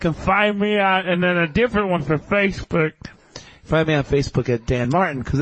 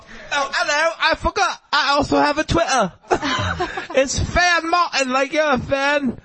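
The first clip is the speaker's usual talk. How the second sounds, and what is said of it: Put-on British accent. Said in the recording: “I was hoping you were going to do a British accent”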